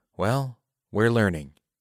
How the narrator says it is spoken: Kayla says

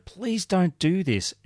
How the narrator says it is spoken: she begged Crespo

